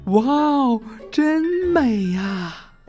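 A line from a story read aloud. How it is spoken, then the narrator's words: Exclaiming in admiration. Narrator (Chinese): 贝利奥、卡门和卡梅利多感叹道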